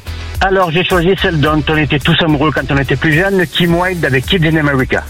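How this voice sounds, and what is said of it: Southern French accent. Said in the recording (French): “Avec l'accent méridional”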